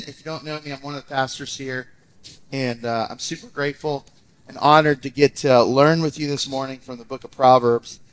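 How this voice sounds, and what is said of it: Congested, recovering voice. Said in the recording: “My voice is still recovering a little bit from some sinus stuff”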